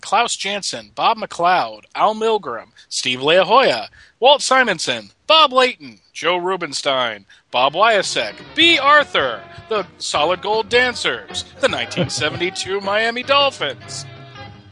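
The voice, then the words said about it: Retro TV announcer voice. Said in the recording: “I go into that 70s, you know, holiday special announcer voice.”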